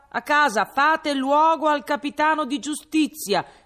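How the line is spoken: Group shouting. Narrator (Italian): grida lui e gli alabardieri

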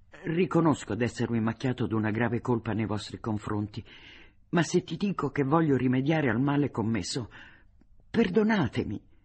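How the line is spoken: Pained voice. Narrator (Italian): gli disse con voce di pena

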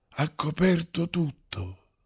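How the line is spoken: Desperate whisper. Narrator (Italian): sussurrò poi disperato

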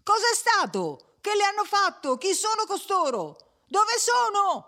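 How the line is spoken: Many voices shouting. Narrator (Italian): gli veniva gridato da 50 voci a un tratto

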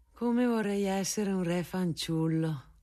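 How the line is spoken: Mother sighing, smiling. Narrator (Italian): diceva mia madre con un sospiro e un sorriso

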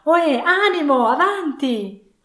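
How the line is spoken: Pitying exclamation. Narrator (Italian): con un'insolita rapidità di transizione, esclamò compiangendo l'altro se stesso

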